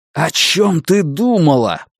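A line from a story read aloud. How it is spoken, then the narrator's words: Shouted in her face. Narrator (Russian): прокричал ей в лицо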